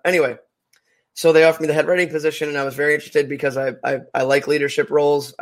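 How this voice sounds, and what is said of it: Voice sounds a little rough. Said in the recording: “my voice is a little messed up”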